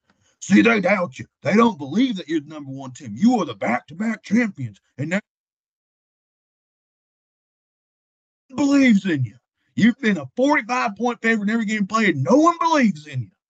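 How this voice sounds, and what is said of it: Imitates another person's voice. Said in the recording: “That was a good impression. That was a really good impression of Kirby Smart. ... that was impressive. Well, that was damn good.”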